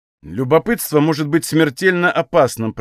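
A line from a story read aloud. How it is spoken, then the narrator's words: Irritated. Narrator (Russian): произнес Даршан раздраженно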